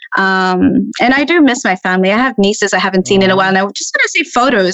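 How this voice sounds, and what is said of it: Australian-sounding hybrid accent. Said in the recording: “That was very Australian accent ... It's a hybrid, I think.”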